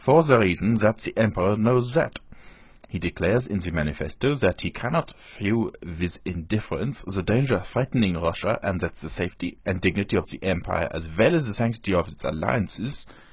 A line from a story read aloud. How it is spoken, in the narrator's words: said he, speaking with a German accent